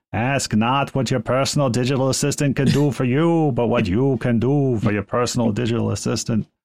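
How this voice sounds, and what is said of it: Imitating John F. Kennedy's voice. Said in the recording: “John F. Kennedy's voice ... I'm not sure where that accent was ... I'm not from Boston”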